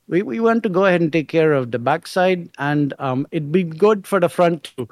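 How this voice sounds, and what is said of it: Put-on Indian accent. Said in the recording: “he's an Indian guy... that accent”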